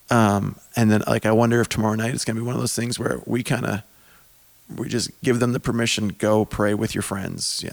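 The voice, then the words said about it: Tired, strained, hoarse-sounding voice. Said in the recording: “I'm tired and losing my voice.”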